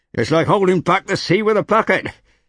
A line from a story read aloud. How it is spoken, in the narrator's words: yelled Togi